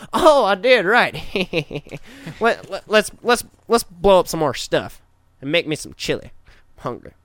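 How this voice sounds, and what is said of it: Impression of George W. Bush. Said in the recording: “That's a pretty good impression.”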